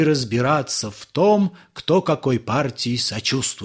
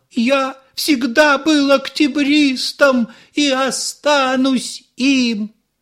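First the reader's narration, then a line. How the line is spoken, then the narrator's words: Ringing voice. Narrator (Russian): председатель биржевого комитета ... звенящим голосом сказал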